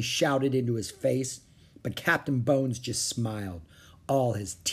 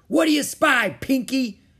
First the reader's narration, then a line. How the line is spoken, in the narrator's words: shouted Captain Bones